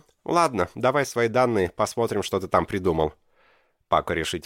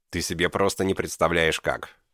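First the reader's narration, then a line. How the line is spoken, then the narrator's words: Gloomy reply. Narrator (Russian): мрачно ответил ему техник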